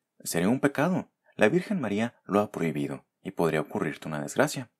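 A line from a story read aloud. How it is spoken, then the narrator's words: Angels exclaiming. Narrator (Spanish): exclamaron los ángeles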